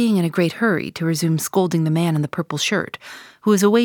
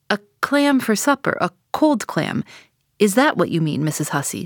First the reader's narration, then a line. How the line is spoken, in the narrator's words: says I